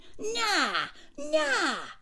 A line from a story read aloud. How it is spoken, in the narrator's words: he shouted